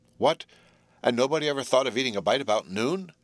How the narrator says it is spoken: exclaimed Jerry

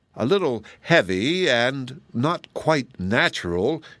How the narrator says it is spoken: he cheerfully replied

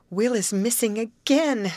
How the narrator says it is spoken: sobbed Grace

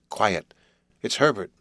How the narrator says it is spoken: I said

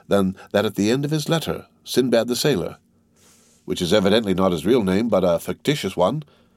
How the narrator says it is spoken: answered Julie, looking earnestly

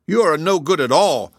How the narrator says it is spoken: cried the wolverine crossly, for it was suffering great pain

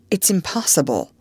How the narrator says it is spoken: he exclaimed

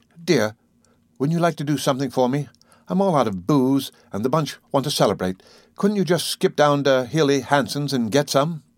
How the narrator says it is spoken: begged

